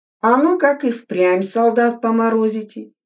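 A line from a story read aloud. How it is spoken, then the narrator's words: Plain question. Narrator (Russian): спросил комбат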